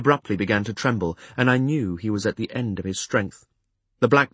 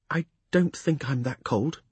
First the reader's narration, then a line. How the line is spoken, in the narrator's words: he said faintly